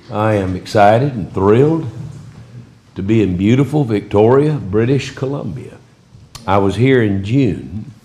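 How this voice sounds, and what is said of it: Noticeable regional accent. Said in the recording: “overlook my accent ... I came by it honestly, and I just can't help it. It's just there.”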